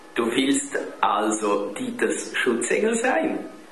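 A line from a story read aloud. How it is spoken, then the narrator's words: Mother laughing. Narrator (German): musste die Mutter lachen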